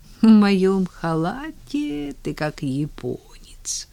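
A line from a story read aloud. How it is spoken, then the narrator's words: Sleepy. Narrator (Russian): сонно сказала она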